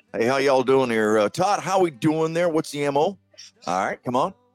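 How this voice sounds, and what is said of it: Put-on Southern American accent. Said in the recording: “that southern accent”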